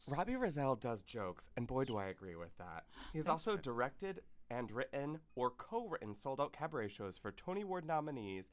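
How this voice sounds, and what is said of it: Calm public-radio announcer voice. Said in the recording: “put on my NPR voice”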